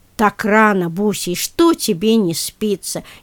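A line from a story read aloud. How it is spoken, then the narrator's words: Sleepy displeased grumble. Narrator (Russian): недовольно сонным голосом проворчала хозяйка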